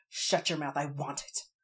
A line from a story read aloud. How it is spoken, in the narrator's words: Tally snapped